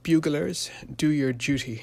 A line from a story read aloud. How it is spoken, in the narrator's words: exclaimed Colonel Beckwith in a voice husky with emotion